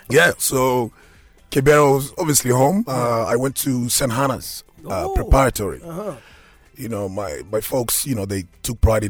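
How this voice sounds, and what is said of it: Kenyan accent. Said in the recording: “it's a Kenyan accent”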